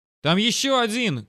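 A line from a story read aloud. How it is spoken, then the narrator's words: Shout. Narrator (Russian): крикнул Сэм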